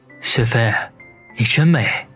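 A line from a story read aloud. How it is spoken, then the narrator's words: Soft whisper. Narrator (Chinese): 他在她耳边轻声地说道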